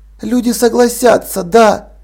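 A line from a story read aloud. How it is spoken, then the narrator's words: Hoarse. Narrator (Russian): хрипло ответила Полли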